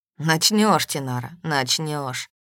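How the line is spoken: Grim promise. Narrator (Russian): мрачно пообещал Норт

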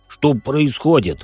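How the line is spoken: Irritated. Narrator (Russian): раздраженно произносит маг

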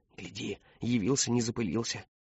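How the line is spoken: Whispering. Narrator (Russian): шептали

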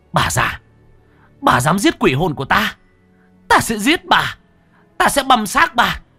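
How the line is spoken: Screaming. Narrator (Vietnamese): Cô anh hét lên về phía bà Mai Cảnh

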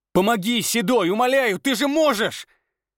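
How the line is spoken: Shouting. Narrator (Russian): кричал

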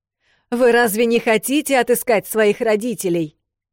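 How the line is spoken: Shouting after departing people. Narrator (Russian): выкрикнул он сестрам вдогонку

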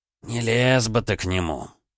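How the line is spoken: Disapproving old man grumbling. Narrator (Russian): неодобрительно проворчал старик

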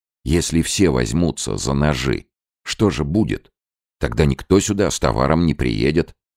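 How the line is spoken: Plain. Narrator (Russian): сказал капитан

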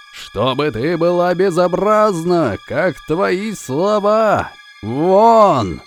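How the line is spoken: Furious yelling, stamping. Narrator (Russian): заорал в бешенстве, топая ногами

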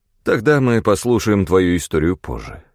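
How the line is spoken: Sighing. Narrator (Russian): вздохнул он

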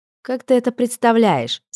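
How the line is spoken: Laughing. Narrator (Russian): смеялась Агата

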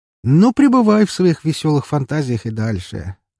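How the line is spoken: Chuckle. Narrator (Russian): хохотнул мой собеседник

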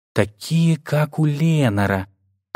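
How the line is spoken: Whisper. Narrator (Russian): прошептал я

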